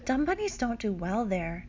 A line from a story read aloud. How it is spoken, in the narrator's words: sighs